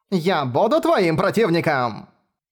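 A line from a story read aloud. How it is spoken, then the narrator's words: Fierce samurai-like bark. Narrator (Russian): Гаркнула, как древний самурай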